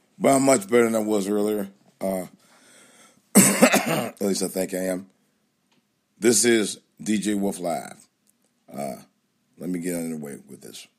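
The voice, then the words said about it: Slightly hoarse voice. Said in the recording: “my voice is a little bit hoarse”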